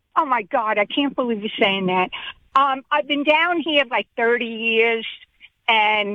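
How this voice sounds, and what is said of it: New York accent with Southern flair. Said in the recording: “You have a Mississippi accent. You have a Southern accent. ... I think you have a New York accent. ... It's New York with a little bit of Southern flair to it. You have a very interesting accent.”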